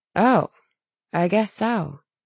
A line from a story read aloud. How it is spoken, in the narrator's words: Tally murmured